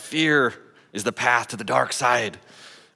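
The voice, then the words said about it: Poor Yoda character voice. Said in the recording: “It's a terrible accent, sorry. Should have practiced that.”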